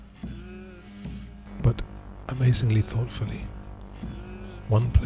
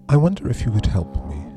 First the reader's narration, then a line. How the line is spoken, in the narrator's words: said